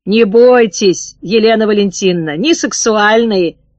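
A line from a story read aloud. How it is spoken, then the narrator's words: Hoarse reply. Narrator (Russian): хрипло ответила девица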